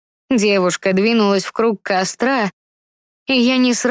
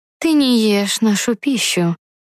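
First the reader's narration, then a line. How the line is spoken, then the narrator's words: Calm after pause. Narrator (Russian): помолчав спокойно, сказала старшая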